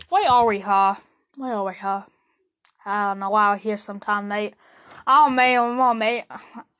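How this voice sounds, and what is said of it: Put-on Australian accent. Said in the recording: “Why did I choose an Australian accent? ... I don't know what type of accent that is.”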